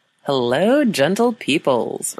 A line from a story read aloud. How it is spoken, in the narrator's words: Ryan called out